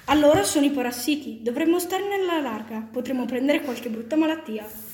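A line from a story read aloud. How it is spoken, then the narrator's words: Fearful exclamation. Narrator (Italian): esclamò il più pauroso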